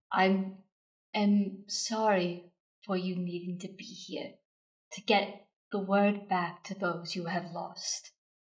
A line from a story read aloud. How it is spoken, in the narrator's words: she says very softly, but a bit sternly